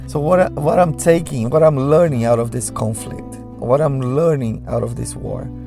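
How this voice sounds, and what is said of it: Sick, congested-sounding voice. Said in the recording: “Sorry about my voice, I got a cold.”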